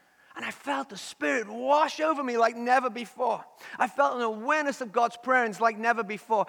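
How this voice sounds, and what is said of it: Liverpool accent. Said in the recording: “I had a really strong, thick Liverpool accent back. You think it's bad now?”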